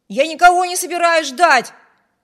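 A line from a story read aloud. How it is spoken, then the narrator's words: Shout. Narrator (Russian): крикнул Виберт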